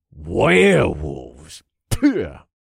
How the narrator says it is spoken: Jax spat

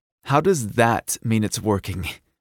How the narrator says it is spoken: sputtered through a giggle

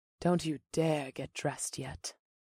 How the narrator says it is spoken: the blue-skinned woman purred

